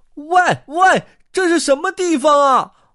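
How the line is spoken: Loud question. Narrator (Chinese): 沃尔特大声问道

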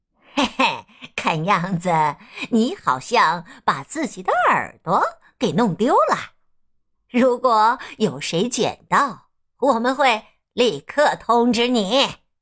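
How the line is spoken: Man, smirking, mocking. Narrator (Chinese): 男人一脸坏笑的对没有耳朵的兔子说

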